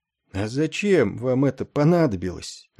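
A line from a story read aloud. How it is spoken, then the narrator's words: Sad. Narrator (Russian): печально сказала она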